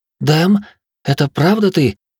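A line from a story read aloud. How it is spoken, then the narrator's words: Tearful woman exclaiming. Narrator (Russian): со слезами на глазах воскликнула женщина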